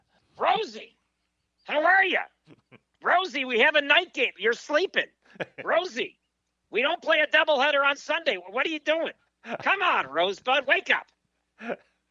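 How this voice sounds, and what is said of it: Impression of broadcaster Tom Hamilton. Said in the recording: “your Tom Hamilton impression? ... Perfect.”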